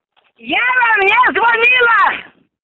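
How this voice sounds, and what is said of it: Shouting angrily. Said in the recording (Russian): “Не кричите”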